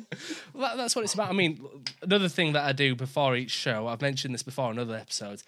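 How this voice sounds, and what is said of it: Yorkshire accent. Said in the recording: “I always apologise for my accent because I'm from Yorkshire”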